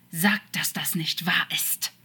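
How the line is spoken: Angry snake hiss. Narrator (German): zischte Crawley als Schlange wütend

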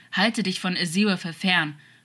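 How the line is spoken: Old man's warning growl. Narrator (German): knurrte der Alte in einem warnenden Unterton

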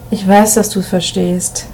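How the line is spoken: Murmured low. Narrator (German): raunte Emil Martin zu

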